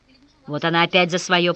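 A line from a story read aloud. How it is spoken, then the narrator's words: Grumbling gatekeeper. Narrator (Russian): проворчал привратник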